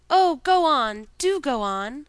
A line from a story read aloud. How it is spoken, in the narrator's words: the children cried out